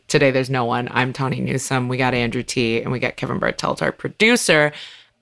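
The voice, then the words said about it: Hoarse, strained voice. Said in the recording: “my voice is a little destroyed... screaming my face off and talking to hundreds of people. So now I sound like this.”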